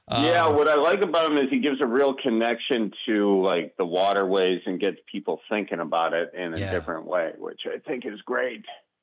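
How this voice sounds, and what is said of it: Wisconsin accent. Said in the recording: “your awesome Wisconsin accent”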